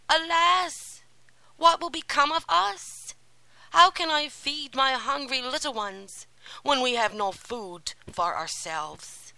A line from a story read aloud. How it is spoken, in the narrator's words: the poor man cried aloud in his grief and anguish